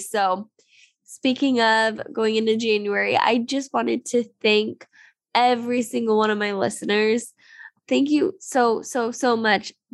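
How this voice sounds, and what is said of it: Sick, congested-sounding voice. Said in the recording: “excuse my voice... I've had a cold that is lingering, and so I sound terrible”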